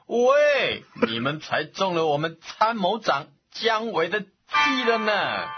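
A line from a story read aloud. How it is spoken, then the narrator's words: Hearty laughter. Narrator (Chinese): 城里的人竟然哈哈大笑地说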